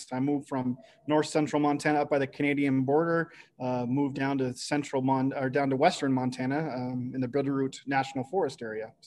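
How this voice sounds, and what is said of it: Slight Canadian accent. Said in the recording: “I do detect a little bit of a Canadian accent. ... there's a little bit of that.”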